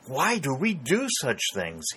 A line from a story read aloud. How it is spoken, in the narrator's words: exclaimed, after the faintness passed